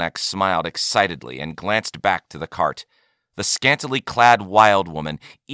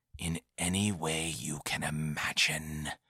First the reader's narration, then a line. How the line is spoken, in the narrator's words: whispered in a conspiratorial manner